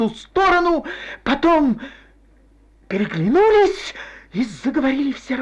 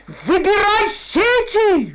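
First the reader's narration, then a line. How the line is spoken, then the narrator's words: Brisk yelling. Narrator (Russian): живо заорал он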